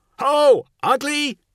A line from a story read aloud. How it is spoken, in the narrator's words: he shouted